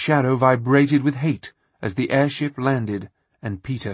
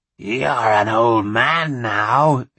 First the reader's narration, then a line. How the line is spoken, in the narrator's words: it growled